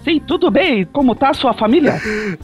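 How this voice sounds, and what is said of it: Put-on Japanese accent. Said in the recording (Portuguese): “O que aconteceu com a sua voz, japonês? ... Tô fazendo voz de japonês”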